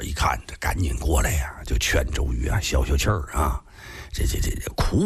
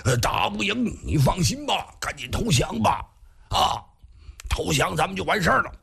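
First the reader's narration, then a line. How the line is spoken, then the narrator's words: Shouting. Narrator (Chinese): 黄盖往外边拖的时候还边喊呢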